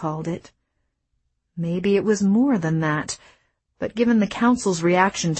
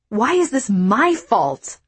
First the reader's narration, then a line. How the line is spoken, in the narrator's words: I shouted